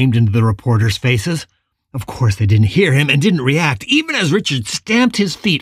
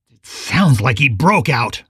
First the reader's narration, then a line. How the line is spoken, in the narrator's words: Richard growled